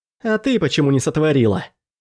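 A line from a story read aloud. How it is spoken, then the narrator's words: Slightly sharp. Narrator (Russian): Возможно, мой голос звучал немного резко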